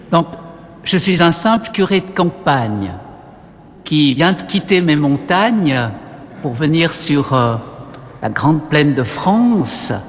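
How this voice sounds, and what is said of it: Slight regional accent. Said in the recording (French): “il y aura un petit accent, mais bon, je ne peux pas renier mes origines”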